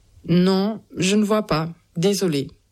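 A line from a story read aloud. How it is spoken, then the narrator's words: Plain. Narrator (French): dit-elle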